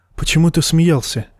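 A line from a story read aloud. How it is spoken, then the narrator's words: Quiet question, woman, at night. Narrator (Russian): тихо спросила его ночью женщина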